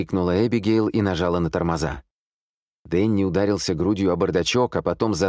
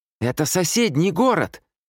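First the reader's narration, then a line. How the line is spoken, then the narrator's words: Joyful deafening shriek. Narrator (Russian): кричала, оглушая его радостным визгом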